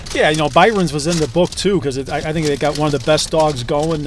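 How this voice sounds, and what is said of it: Mild Chicago accent. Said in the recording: “you've got the Chicago accent ... I got a little bit of it ... the dis, dat, these, and does”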